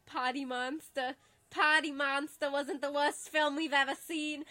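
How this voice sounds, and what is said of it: Speaks in a put-on accent. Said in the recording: “I don't know why I just slid into an accent.”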